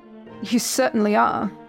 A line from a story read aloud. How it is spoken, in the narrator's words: Scrooge chuckled